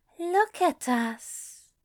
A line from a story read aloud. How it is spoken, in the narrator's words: he breathed, glowing with quiet but warm affection